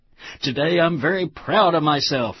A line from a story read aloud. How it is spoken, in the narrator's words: exclaimed the strangely coiffed ego who takes pride in being proud of himself every day